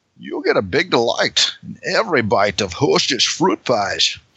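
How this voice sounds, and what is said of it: Imitates another person's voice. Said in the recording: “By Connery. ... That's a good one.”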